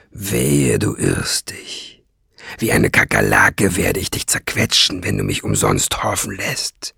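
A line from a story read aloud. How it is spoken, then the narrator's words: Dark, deep voice. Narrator (German): sagte er mit dunkler Stimme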